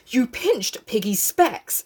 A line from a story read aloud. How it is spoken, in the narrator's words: said Ralph breathlessly